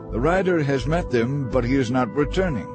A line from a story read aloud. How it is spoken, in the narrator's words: The watchman called out